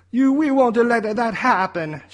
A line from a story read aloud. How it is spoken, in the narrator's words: shouted Mario